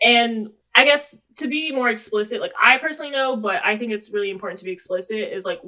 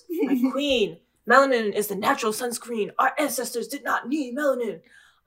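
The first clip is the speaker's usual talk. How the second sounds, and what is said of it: Put-on preachy "hotep" character voice. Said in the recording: “let me do my hoped up voice.”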